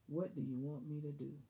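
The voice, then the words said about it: Deep voice. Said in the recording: “deep voice”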